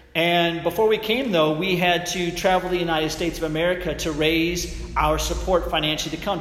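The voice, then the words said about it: Non-Welsh, American-sounding accent. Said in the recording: “Obviously, based on my accent, we were not from Wales”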